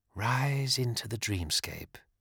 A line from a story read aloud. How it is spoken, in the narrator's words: said Athena, her voice losing its harsh edge and becoming almost pleasant